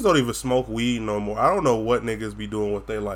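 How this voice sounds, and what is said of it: Florida Southern twang. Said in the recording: “if I sound like I have an accent ... I have a twang because I'm from Florida ... my goddamn Florida accent”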